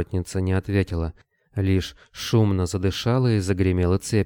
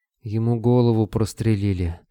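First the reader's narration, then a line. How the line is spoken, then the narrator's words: Breathed out. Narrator (Russian): выдохнула Вера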